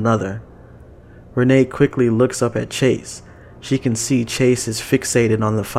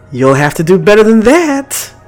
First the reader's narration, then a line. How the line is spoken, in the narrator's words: Lucia shouts